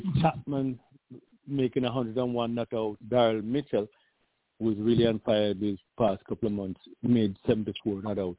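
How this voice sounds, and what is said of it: Fading, hoarse voice. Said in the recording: “You hear my voice is going again”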